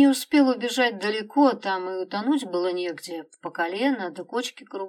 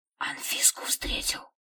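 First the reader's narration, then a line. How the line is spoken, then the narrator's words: Whispering crowd. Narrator (Russian): шептались крестьяне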